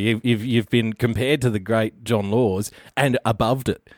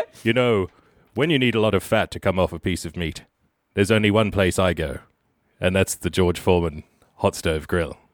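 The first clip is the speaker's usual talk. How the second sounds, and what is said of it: Bad John Laws impression. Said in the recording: “How do you rate that as an impression? ... I'm putting that about halfway. ... your bad John Laws one.”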